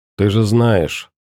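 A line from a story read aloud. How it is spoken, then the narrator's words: Dry reply. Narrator (Russian): сухо ответил капитан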